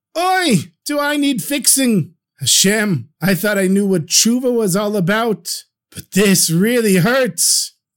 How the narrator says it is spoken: And the merchant shouts out

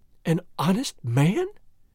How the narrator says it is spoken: she exclaimed with the utmost contempt

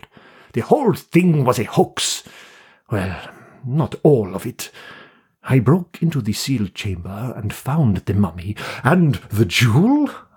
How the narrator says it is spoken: I exclaimed

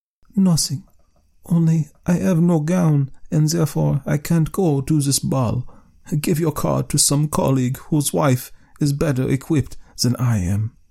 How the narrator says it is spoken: replied in a calm voice

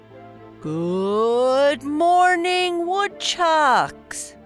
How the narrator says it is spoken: boomed Principal Burke

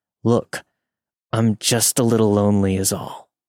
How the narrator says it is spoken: Through gritted teeth, trying to mask his frustration, he said

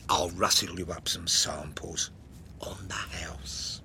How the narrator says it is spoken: I whispered

